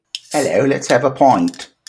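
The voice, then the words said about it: Poor put-on British accent. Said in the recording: “That's like the worst British accent ever.”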